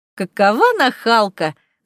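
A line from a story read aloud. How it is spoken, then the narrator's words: Laughing. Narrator (Russian): засмеялась Сибилла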